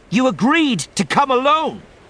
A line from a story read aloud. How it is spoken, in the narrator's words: she snapped